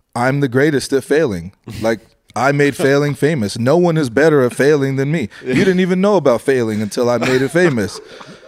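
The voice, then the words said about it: Imitates another person's voice. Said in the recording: “in my best Donald Trump voice,”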